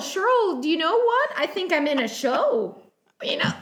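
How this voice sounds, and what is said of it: Put-on Canadian accent. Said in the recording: “Was that your Canadian accent? ... Oh, that was good. It was really good.”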